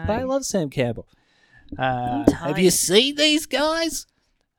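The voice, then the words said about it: Imitates another person's voice. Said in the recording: “my Sam Campbell impersonation”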